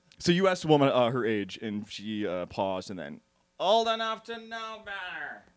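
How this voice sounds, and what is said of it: Impression of Howard Stern's mom. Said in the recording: “It was Howard Stern's mom. ... That was a great impression.”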